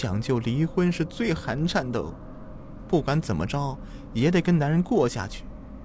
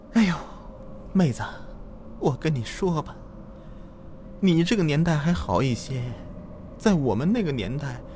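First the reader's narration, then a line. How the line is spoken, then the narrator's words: Sighing. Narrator (Chinese): 这女人叹了一口气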